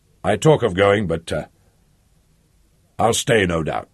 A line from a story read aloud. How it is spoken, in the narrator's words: he said